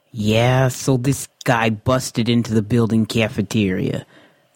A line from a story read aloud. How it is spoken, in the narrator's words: Walter said sarcastically